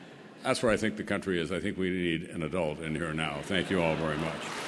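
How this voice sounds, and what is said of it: Usual voice. Nothing is said of it.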